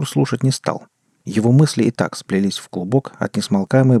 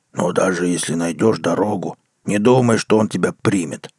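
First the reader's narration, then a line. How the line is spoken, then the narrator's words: Grumbling. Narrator (Russian): проворчала правая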